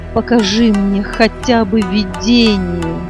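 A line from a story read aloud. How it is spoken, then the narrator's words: Grieving moan. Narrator (Russian): в сердце скорбя простонал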